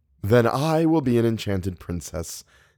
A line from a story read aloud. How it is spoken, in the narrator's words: Theodora said